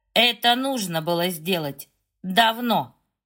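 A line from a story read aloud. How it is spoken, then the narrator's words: Grim smirking tone. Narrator (Russian): мрачно ухмыляется Шерден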